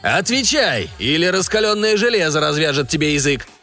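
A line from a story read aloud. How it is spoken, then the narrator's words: Roaring. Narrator (Russian): взревел Еваран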